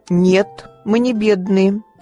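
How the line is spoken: Indignant. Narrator (Russian): сказала Мэри возмущенно

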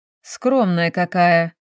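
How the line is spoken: Short chuckle. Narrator (Russian): хохотнул Евгений Анатольевич

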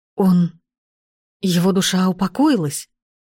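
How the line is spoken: Trembling voice. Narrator (Russian): Дрогнувшим голосом спросил он

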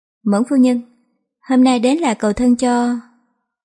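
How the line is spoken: Smiling. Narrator (Vietnamese): Tạ Khang Hà mỉm cười nói

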